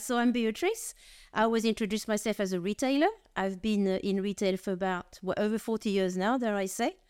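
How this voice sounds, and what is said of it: French accent. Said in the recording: “I'm French of origin, as you probably gather from my accent.”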